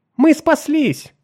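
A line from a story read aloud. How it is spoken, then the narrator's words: Joyful exclamation. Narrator (Russian): воскликнула Нарна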